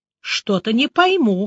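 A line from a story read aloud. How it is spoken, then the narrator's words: Skeptical snort. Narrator (Russian): хмыкнул Шлыков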